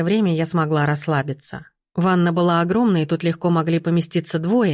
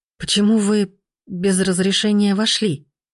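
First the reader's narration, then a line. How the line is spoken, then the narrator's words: Forced, strained. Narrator (Russian): Выдавила из себя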